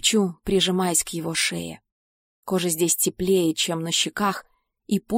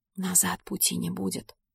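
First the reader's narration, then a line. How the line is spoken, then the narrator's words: Quiet whisper. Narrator (Russian): шепчет он тихо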